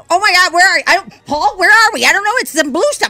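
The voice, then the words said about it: Voices ants as panicked characters. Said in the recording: “my impression of ants”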